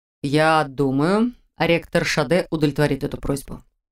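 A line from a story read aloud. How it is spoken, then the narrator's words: Slow, reluctant reply. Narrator (Russian): медленно, как будто неохотно ответил Мор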